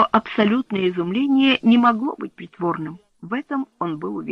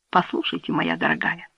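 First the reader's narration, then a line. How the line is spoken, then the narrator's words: Calm. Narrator (Russian): он говорил спокойно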